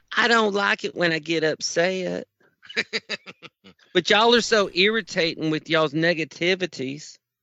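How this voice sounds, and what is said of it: Preacher voice from Young Sheldon. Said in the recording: “You sound like the preacher on Young Shelton.”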